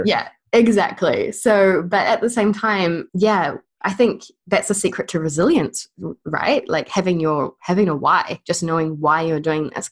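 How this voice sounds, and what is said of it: New Zealand accent. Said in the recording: “It might be my accent ... So in New Zealand, our E's become I's ... I have a strange accent”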